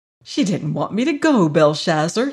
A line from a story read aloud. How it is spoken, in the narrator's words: he chuckled to the dog